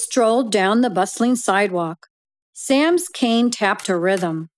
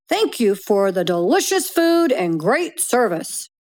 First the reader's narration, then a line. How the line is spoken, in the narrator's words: He cheerfully said